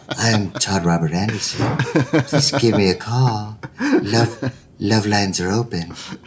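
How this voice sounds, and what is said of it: Smooth late-night radio DJ voice. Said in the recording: “That was like your smooth jazz, like DJ voice.”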